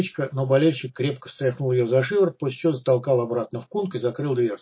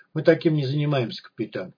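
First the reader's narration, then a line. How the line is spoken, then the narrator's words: Somewhat guilty tone. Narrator (Russian): сказал несколько виноватым тоном болельщик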